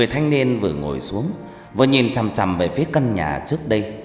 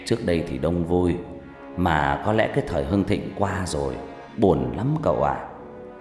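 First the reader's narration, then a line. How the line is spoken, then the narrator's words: Sighing old man. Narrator (Vietnamese): Ông già rít một hơi thuốc lào, thở dài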